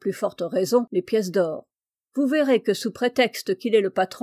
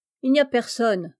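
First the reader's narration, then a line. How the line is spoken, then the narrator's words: Grumbled with a yawn. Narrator (French): grommela avec un bâillement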